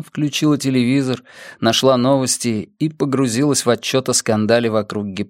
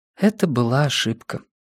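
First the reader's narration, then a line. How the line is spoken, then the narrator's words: Quiet. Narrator (Russian): тихо сказала она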